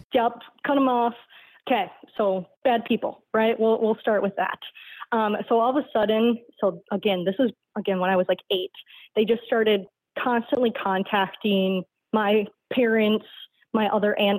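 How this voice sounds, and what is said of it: Midwestern American accent. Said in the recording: “the way you talk and, like, your accent, I guess, sounds exactly almost like one of my cousins who lives in Ohio ... I have the Midwest accent”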